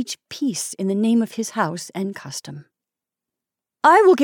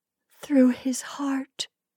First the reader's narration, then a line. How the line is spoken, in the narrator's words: she whispered